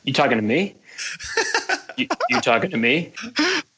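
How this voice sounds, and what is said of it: Robert De Niro impression. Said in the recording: “best Robert De Niro impression ... pretty good”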